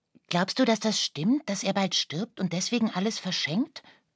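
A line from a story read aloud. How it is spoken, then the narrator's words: Plain. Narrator (German): fragte Lucia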